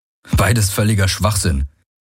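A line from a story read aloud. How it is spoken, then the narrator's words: Growling. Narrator (German): knurrte Garland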